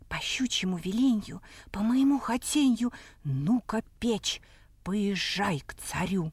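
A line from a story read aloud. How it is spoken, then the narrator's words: Said quietly. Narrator (Russian): так и говорит тихонько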